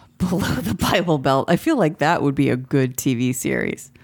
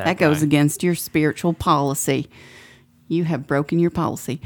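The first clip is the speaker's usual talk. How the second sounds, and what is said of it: Put-on Southern US accent. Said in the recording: “use a southern accent”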